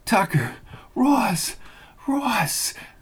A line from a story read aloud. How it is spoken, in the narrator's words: she cried into his shoulder